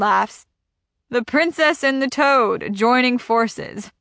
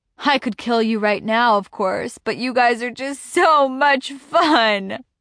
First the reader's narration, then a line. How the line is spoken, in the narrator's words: he laughs